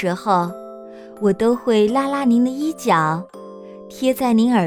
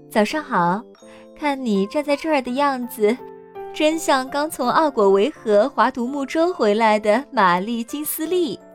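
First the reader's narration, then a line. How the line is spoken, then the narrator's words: Laughing, cheerful. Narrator (Chinese): 您却笑着对我说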